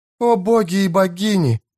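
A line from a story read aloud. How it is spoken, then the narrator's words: Breathless exhale. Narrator (Russian): выдохнула Эстер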